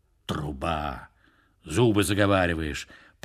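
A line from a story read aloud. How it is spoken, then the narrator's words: Grumbling. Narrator (Russian): пробурчал он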